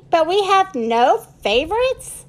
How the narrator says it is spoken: shouted Ollie

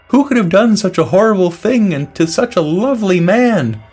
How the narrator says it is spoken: the peckerhead exclaimed

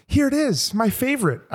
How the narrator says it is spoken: I chirped

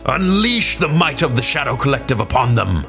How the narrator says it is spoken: Maul roared

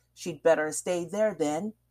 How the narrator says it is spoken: he flung back at her

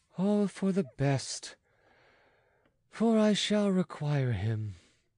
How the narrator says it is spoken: returned Louis with a sigh

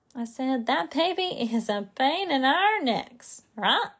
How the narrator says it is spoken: Mother laughed

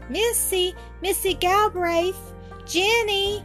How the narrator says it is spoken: shouted

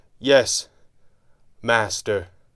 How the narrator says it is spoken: the first of them sputtered, the word falling awkwardly from his mouth

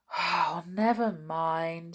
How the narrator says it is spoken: said Joe with a sigh

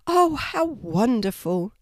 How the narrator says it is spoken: Sylvia exclaimed

